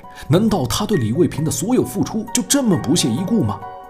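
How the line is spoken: Puzzled retort. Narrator (Chinese): 罗慧慧却面露不解地反问他

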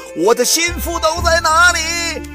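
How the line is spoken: Alarmed shout. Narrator (Chinese): 王伦见势头不好 口里喊道

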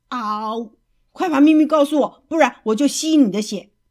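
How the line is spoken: Terrifying throaty roar. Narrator (Chinese): 他的喉咙里发出可怕的吼声

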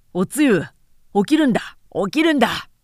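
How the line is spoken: Very energetic call. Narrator (Japanese): 恐ろしく元気な声で呼び起こされた

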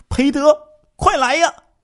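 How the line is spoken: Loud shout. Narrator (Chinese): 李成秀大叫了一声

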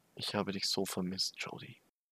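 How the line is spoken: Soft whisper. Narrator (German): flüsterte leise

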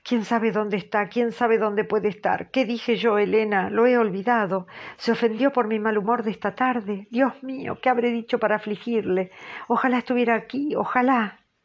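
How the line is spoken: Agitated exclaiming. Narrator (Spanish): Catalina exclamando

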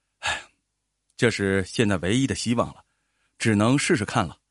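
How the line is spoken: Father's sigh. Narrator (Chinese): 杰克父亲叹了一口气说

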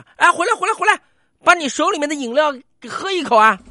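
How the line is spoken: Staff member shouting. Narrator (Chinese): 车站工作人员当时就喊了

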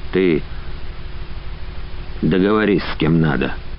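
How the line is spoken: Hoarser pleading voice. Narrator (Russian): попросил Иван еще более осевшим голосом

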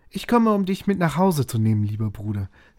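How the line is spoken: Cheerful child. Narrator (German): sagte das Kind, fröhlich

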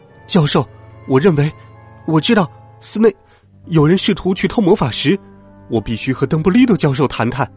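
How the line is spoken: Stammering question. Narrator (Chinese): 他结结巴巴的问

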